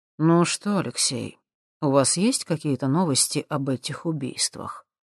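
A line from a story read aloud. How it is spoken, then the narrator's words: Quiet male question. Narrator (Russian): тихо спросил Николай Комиссаров у следователя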